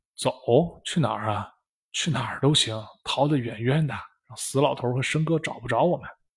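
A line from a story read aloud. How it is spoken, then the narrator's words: Low voice. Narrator (Chinese): 一个伙计低声说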